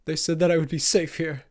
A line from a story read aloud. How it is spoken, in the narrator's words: Marcus whimpered